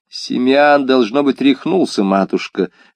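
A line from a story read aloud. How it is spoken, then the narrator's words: Amused reply, laughing. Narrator (Russian): ответил регент, невольно засмеявшись над тем, что мать все еще отчитывает его за шалости, словно ребенка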